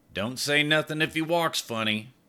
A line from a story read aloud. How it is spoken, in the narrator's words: muttered